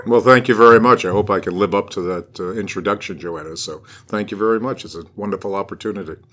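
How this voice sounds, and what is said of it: Smooth radio-style voice. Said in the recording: “what a great radio voice ... has”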